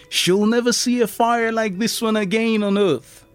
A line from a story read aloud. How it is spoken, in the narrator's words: Edison excitedly told his son